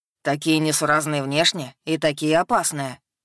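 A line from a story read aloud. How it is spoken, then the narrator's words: Agreeing growl. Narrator (Russian): Согласно рыкнул Авзугар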